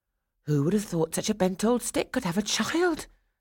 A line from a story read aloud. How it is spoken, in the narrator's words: exclaimed another